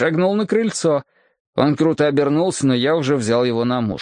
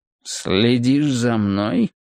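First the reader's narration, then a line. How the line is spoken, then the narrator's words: Sinister question. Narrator (Russian): зловещим голосом спросил я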